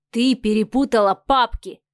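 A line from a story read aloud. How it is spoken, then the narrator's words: Stern, arrogant, haughty. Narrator (Russian): голос Адмиралова звучал строго, высокомерно и надменно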